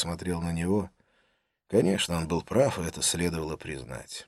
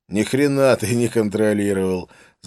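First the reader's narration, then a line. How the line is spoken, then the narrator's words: Laughing. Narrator (Russian): засмеялся он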